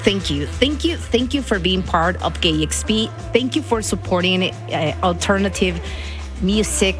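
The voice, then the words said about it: Speaker's own accent. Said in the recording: “accent. And he said, like, we love your accent.”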